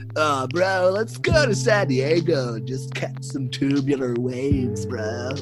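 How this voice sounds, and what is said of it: Put-on San Diego surfer accent. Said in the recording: “San Diego accent.”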